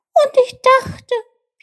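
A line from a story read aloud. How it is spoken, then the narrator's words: Disappointed squeak. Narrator (German): piepste Tjilp enttäuscht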